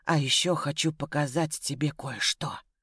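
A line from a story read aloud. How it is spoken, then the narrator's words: Whispered. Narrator (Russian): прошептал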